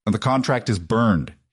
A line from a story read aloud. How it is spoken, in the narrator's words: he growled